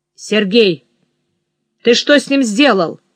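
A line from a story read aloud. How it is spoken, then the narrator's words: Stern question. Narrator (Russian): строго спросил кот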